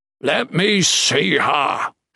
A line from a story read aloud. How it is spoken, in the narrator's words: Shatan growled, exasperated